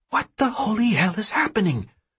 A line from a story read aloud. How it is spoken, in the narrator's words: Serenity hisses at me